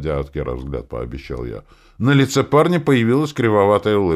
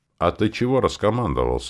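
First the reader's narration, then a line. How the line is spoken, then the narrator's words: Displeased grumble. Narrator (Russian): недовольно проворчал в ответ Кер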